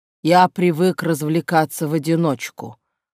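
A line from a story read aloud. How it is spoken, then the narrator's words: Snort. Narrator (Russian): хмыкнул Колли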